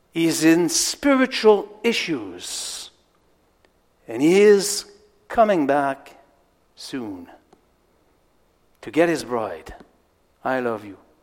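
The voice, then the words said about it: French-accented English. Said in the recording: “French excitement and French accent”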